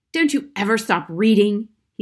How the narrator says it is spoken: snapped

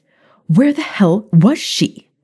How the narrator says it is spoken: Maya snapped

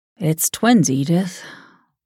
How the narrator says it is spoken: sighed

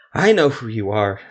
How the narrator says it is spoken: Stesko wheezed

